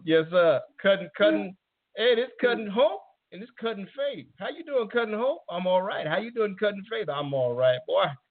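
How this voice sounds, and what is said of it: Slight put-on Southern accent. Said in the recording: “Little accent that shows that there's some roots that you drew from.”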